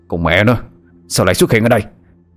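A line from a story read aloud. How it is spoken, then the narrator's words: Snapped irritably. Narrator (Vietnamese): Lê Cao Hưng chụp đầu gắt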